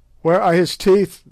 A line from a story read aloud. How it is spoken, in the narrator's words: they shouted